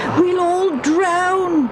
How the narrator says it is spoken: yelled

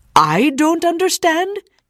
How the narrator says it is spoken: yelled the man

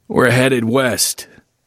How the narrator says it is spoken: Phil croaked

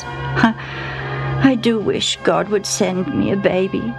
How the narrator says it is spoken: she sighed

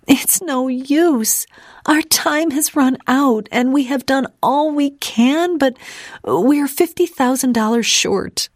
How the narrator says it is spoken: she sobbed

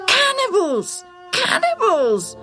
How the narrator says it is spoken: some screamed

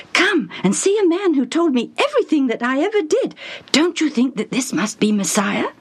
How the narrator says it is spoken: the woman was running around excitedly and saying

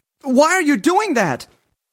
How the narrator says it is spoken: he yelled

